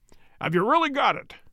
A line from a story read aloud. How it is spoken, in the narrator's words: he cried